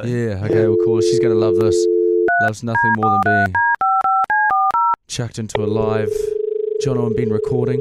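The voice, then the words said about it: Husky voice, losing his voice. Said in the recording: “A little bit of husky... I'm a bit husky, slowly losing my voice.”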